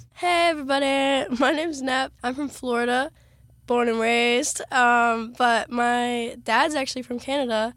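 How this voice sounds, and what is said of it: Worn-out, strained voice. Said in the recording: “my voice is giving out ... my voice is ready to be done.”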